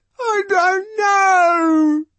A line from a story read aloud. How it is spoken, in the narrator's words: he howls